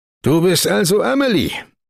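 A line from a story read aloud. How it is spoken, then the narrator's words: Bellowing into ear. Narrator (German): brüllte er ihr ins Ohr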